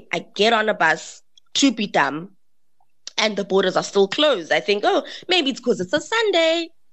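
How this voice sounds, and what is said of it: South African accent. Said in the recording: “She heard my South African accent and she was like, "You're from South Africa?"”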